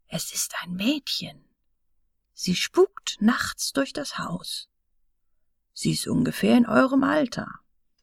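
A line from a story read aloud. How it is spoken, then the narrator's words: Quiet voice. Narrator (German): sprach mit leiser Stimme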